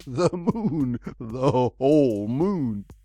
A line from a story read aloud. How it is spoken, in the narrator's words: laughed as he repeated the exultant phrase